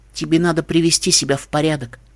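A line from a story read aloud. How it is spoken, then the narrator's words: Gentle, coaxing. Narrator (Russian): Ласково, как капризного ребенка, попросила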